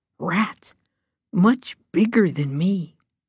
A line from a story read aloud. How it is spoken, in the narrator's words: Jane said in a hoarse, weak voice that grew stronger as she spoke